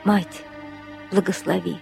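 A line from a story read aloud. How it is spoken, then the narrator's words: Whisper. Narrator (Russian): прошептал он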